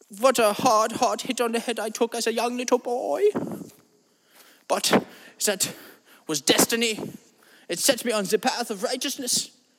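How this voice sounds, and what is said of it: Put-on German accent. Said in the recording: “a man with a German accent who has never even been to Germany... I just have this accent”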